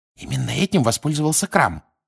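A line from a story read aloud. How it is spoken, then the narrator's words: Whisper. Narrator (Russian): прошептала Гермиона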